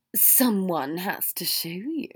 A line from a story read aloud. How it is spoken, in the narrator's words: Draco hissed